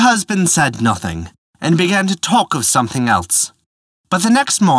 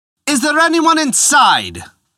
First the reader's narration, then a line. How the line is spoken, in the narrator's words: cried the young man in his loudest voice